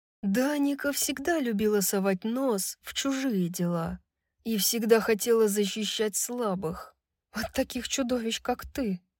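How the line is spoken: Muttering. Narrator (Russian): пробормотала Брайс

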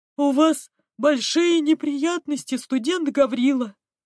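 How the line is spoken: Gleeful announcement. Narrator (Russian): радостно сообщил Кесси

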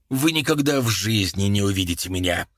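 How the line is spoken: Angry. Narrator (Russian): злобно сказал Багли

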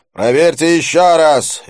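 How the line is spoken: Quick bark. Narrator (Russian): рявкнул Дилип молнией

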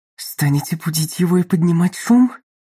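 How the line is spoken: Hissed. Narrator (Russian): прошипел он

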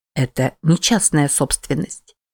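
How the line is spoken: Soft and calm. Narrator (Russian): мягко и спокойно произнес

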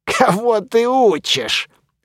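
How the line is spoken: Scoffing, mummy. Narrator (Russian): хмыкнул мумий

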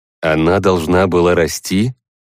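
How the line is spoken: Tadpole's skeptical snort. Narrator (Russian): головастик хмыкнул

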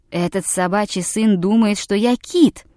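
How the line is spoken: Indignant exclamation. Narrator (Russian): воскликнул Тумазук

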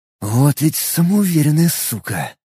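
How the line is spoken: Whisper. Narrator (Russian): прошептал я

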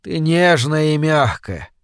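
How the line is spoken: Mumbling. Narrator (Russian): промямлил он

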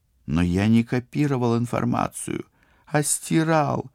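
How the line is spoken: Desperate groan. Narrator (Russian): простонал Сбышек, снова ощутив, что его жизнь висит на волоске

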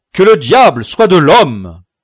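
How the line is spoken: Exclaimed. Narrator (French): s'écria Don Quichotte

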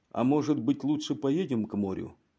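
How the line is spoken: Reading aloud in low voice. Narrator (Russian): вполголоса перечитал

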